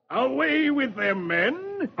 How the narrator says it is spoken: Hook snarls

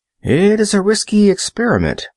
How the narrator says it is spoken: exclaimed the cook

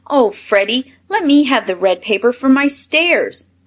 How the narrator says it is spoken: cried Bert

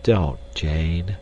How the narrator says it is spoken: said Clayton sadly

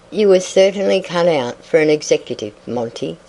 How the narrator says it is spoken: said Mrs

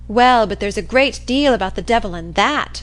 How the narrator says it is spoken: said Maggie triumphantly

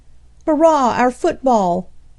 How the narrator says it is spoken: exclaimed Harry

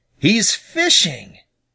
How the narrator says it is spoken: exclaimed Billy Mink

